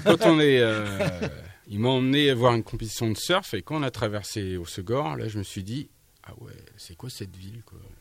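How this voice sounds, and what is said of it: Slight regional accent. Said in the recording (French): “Il a encore un petit peu l'accent”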